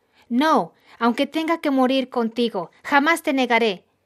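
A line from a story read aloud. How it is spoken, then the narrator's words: Exclaiming. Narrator (Spanish): Pedro exclamó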